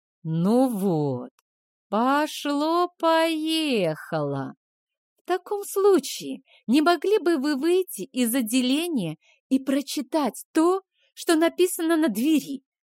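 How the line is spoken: Purring. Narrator (Russian): Промурлыкала Марго, словно бы не замечая угрожающей мимики и позы вампира

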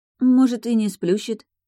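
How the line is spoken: Uncertain objection. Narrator (Russian): неуверенно возразила Тайна

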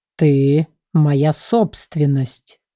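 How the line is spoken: Slow, strained. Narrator (Russian): медленно проговорил он, преодолевая сопротивление моих рук

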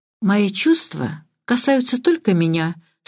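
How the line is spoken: Calm. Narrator (Russian): спокойно сказала Филиппа

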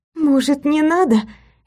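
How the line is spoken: Stifled moan. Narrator (Russian): Я сдавленно застонала

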